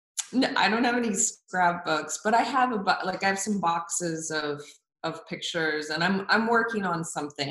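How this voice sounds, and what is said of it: Oklahoma accent. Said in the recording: “Straight out of Oklahoma. ... the accent and all. Y'all, I still have my accent.”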